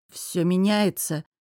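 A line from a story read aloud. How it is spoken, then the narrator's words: Uncertain, forced out. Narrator (Russian): неуверенно выдавил я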